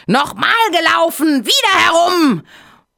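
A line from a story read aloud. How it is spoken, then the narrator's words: Furious shout. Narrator (German): Der Hase ganz außer sich vor Ärger, schrie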